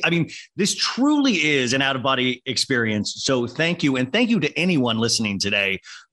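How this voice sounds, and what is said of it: Smooth, attractive radio-style voice. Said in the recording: “radio voice ... You really have a hot, sexy radio voice.”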